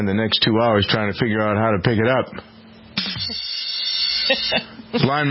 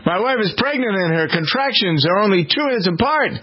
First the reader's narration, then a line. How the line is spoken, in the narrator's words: Blind man shouts frantically